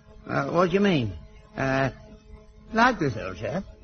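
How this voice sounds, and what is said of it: Put-on upper-class English accent. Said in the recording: “Can you speak with an upper-class accent? ... You see, he's perfect. ... He's not perfect. He's rotten, rotten.”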